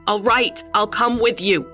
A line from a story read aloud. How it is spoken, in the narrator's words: I shouted with all the voice I had in my body